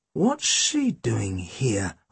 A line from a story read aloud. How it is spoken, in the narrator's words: I muttered